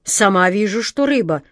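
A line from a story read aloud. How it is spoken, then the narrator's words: Growling. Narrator (Russian): прорычала Джина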